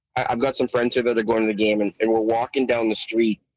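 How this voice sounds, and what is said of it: Slightly rough, tired voice. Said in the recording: “I'm run down. My voice is a little rough”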